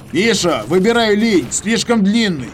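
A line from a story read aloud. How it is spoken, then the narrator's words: Shouted. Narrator (Russian): крикнул я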